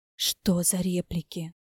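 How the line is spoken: Indignant tragic whisper. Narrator (Russian): Трагическим шепотом возмутилась Катя

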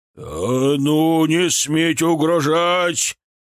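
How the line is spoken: Roaring, voice cracking high. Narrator (Russian): Вновь взревел пуще прежнего патриарх, голос взвился петухом

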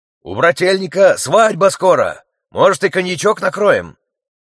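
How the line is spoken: Shouted into someone's ear. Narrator (Russian): прокричал он в ухо оперу

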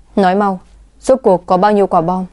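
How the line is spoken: Harsh, gritted voice. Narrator (Vietnamese): Lam Tiễn gằn giọng

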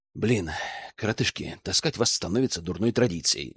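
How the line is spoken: Dejected mutter, young man. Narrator (Russian): сокрушенно пробормотал парень

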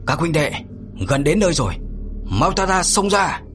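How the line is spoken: Shouting command. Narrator (Vietnamese): Mạnh Hổ quát lên

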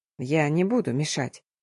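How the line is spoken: Quiet promise. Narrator (Russian): пообещал тихо

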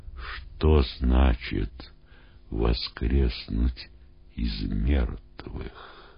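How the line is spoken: Whispered questions, students. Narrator (Russian): ученики шепотом спрашивали друг у друга

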